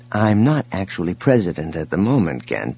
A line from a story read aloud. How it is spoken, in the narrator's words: Leia interrupted him gently